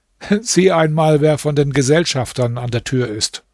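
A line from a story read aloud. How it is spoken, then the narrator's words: Said laughing. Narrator (German): Der Kalif lachte und sagte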